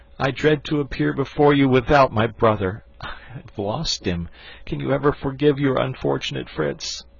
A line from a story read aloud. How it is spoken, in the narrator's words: said he, sobbing